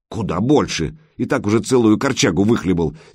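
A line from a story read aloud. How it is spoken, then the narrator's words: Angry woman. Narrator (Russian): сердито проговорила Крашена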